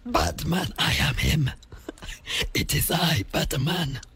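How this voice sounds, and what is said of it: Batman character voice. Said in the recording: “Can you do that voice? ... When I talk about Batman, that's the voice that ... does ... That's what he sounds like.”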